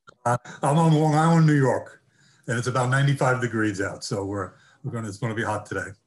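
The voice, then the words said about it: American accent. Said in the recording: “I can tell from the accent you're across the pond.”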